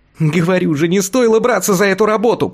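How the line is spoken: Squeaky. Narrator (Russian): пропищал Тонкий

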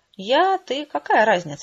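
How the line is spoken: Giggle. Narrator (Russian): хихикнула

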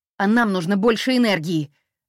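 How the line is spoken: Barking retort. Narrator (Russian): рявкнула я в ответ

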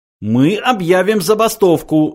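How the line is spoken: Loud yell. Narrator (Russian): завопил Врумфондель

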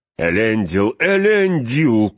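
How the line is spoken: Shouted. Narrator (Russian): крикнул

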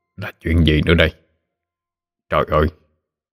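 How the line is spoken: Bewildered muttering. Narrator (Vietnamese): Ông chớp chớp mắt lẩm bẩm

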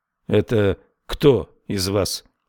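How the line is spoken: Grim question. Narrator (Russian): мрачно спросил он

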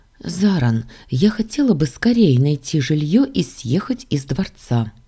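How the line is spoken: Quiet. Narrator (Russian): тихо сказала я

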